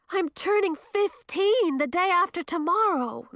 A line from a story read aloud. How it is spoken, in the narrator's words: Millie wailed